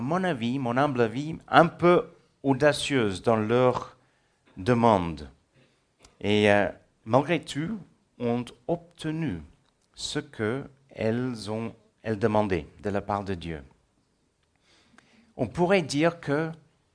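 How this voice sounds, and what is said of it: Slight South African accent. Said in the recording (French): “je suis sud-africain. C'est pour ça que j'ai un léger accent. L'anglais est ma langue maternelle, mais j'ai grandi en Afrique du Sud.”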